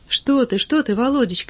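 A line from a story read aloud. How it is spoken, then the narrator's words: Frightened speech. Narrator (Russian): испуганно заговорила Мария Александровна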